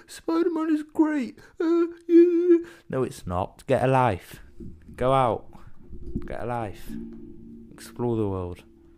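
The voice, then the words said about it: Imitates another person's voice. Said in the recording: “you know who I'm impersonating. The people I'm impersonating know who they are.”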